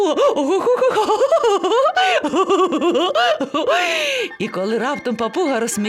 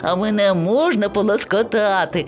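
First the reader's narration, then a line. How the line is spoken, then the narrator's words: Plain. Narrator (Ukrainian): запитала слоненя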